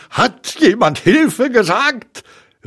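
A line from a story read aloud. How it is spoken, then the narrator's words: Called out. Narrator (German): rief Tigger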